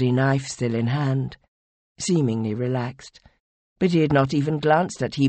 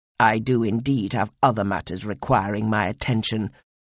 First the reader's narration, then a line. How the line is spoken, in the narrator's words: replied Mawat coldly